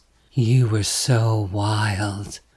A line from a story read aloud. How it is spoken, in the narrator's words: she says, her voice low and guttural